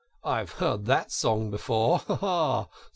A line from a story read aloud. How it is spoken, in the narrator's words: said Toad, laughing